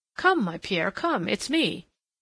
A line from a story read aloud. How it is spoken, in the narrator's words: cried